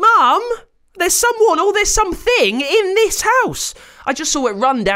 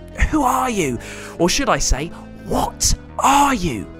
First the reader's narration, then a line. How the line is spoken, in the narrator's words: hissed